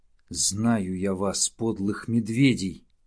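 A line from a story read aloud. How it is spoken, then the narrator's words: Growling. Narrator (Russian): зарычал волчонок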